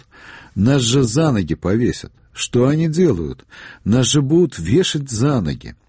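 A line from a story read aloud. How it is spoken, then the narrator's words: Exclaiming. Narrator (Russian): Степашин воскликнул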